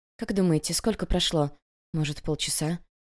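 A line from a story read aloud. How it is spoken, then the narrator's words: Quiet speech. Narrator (Russian): Иногда кто-то тихонько говорил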